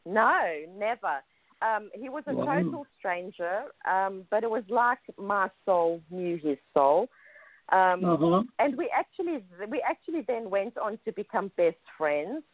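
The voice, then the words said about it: South African accent. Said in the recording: “It's a South African accent. Everyone thinks I'm saying ice.”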